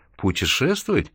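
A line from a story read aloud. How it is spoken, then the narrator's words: Contemptuous laugh. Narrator (Russian): презрительно засмеялся Майкл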